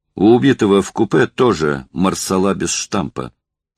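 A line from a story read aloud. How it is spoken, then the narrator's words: Plain. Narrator (Russian): сказал Денисов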